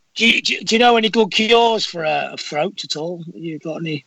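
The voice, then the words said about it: Northern English accent, gravelly voice. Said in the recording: “your accent is terrific ... you sound just like Statham ... He's got a gravelly voice ... I'm a bit like that ... I'm from Manchester ... We're a bit more Northern”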